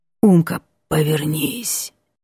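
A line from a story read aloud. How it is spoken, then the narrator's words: Hoarse voice from behind. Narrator (Russian): за спиной раздается хриплое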